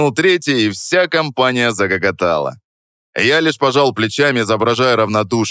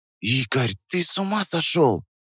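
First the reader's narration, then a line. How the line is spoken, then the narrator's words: Whispered. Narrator (Russian): Прошептала она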